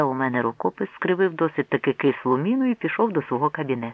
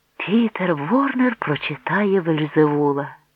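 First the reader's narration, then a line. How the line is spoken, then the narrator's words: Exclaimed. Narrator (Ukrainian): вигукнув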